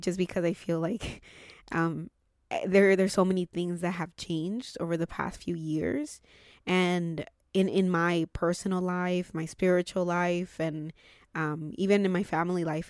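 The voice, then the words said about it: Teary, emotional voice. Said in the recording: “I'm getting a little bit teary”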